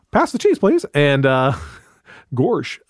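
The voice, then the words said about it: Goofy impression. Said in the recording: “That's my goofy.”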